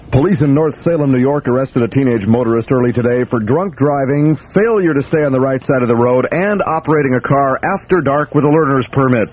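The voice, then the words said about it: Straight newsreader delivery. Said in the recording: “in my straight news voice”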